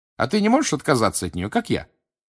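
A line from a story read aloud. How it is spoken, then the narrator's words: Cheerful question. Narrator (Russian): бодро спросила Гермиона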